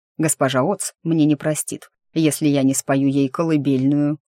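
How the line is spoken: Chuckling demon. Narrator (Russian): хохотнул демон

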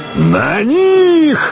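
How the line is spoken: Barking roar. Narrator (Russian): рявкнул Буко

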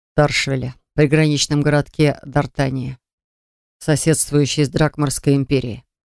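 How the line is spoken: Plain. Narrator (Russian): ответил Джар

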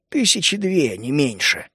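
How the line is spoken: Gruff mutter. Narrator (Russian): буркнул мрак

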